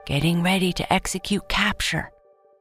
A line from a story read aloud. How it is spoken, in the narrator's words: Alexa whispered into her walkie talkie